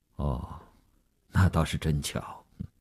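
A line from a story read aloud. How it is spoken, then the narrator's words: Indifferent, flat. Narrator (Chinese): 吴长天淡淡地说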